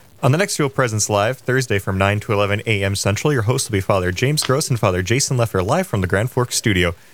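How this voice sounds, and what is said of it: Polished announcer radio voice. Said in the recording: “You got a great radio voice”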